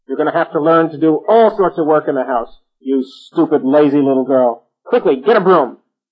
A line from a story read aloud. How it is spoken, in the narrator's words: the witch got very angry and started shouting at her and said